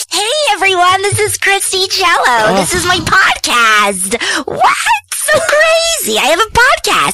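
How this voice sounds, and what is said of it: Distinctive funny voice. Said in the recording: “I have a funny voice.”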